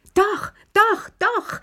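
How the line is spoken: Excited shout. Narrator (German): schrie Lilli

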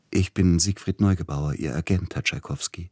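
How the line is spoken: Soft, sugary man's voice. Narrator (German): sagte mit sanfter Stimme der Mann an der Türe und lächelte süßlich

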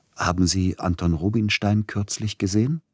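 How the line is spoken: Plain. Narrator (German): fragte Siloti

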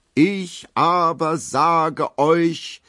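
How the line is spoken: Roaring lion-like voice. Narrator (German): brüllt er mit Löwenstimme

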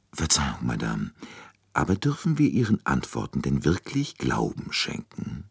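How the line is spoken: Very quiet question. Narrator (German): fragte Poirot sehr leise

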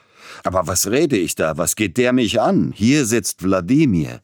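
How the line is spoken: Almost angry exclamation. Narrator (German): Peter Iljitsch rief beinahe zornig aus

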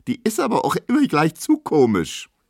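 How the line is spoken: Squealing. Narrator (German): quiekt Emma

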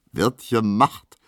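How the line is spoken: Laughing. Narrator (German): sagt lachend der Soldat

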